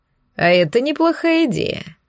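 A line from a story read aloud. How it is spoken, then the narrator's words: Laughing. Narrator (Russian): рассмеялся Арман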